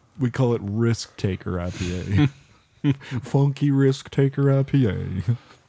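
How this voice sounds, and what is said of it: Impression of another person's voice. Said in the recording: “my impersonation of Cody”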